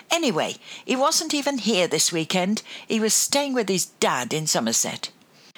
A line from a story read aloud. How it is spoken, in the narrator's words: drew a deep breath and blurted out